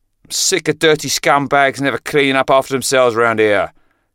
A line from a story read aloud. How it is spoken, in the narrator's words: Craig roared